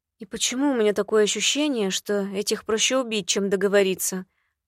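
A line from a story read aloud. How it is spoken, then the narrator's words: Muttering under breath. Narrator (Russian): пробормотала себе под нос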